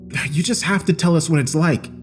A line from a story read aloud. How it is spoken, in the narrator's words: Chris pleaded